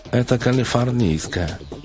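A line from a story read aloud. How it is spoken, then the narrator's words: Nasal voice. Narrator (Russian): сказала она гнусавым голосом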